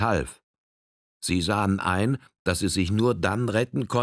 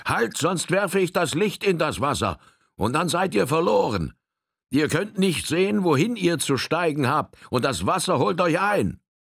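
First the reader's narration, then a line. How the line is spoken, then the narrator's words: Calling out. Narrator (German): rief er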